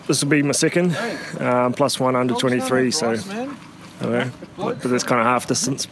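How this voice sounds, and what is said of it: New Zealand accent. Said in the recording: “New Zealander pro Tom Scully ... a second Oceania accent”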